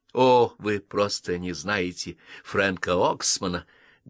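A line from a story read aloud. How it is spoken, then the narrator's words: Bitter laugh. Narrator (Russian): горько рассмеялась миссис Байсон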